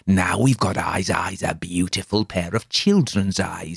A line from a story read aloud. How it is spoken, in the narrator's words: he whispered